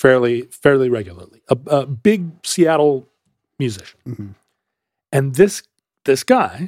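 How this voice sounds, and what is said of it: Usual voice. Nothing is said of it.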